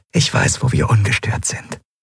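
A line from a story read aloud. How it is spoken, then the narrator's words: Quiet speech. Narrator (German): sagte sie leise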